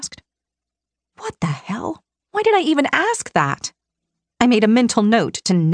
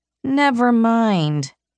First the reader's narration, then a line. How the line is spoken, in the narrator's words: I grumbled